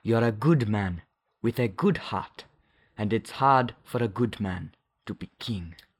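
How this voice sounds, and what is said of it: Imitated accent of T'Challa's father. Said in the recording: “let me see if I can do the accent ... you nailed the accent there”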